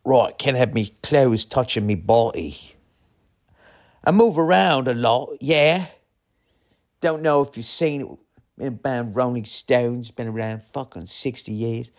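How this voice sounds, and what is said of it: Exaggerated bad English accent. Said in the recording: “It's the worst English accent ever.”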